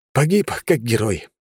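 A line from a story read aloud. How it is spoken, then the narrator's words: Smirking snort. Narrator (Russian): хмыкнул я неведомой разломной тварюшке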